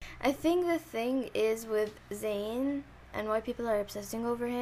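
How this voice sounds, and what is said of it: Usual voice. Nothing is said of it.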